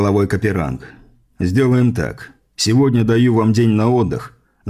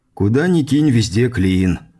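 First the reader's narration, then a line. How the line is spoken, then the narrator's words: Feigned sigh. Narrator (Russian): наигранно вздохнул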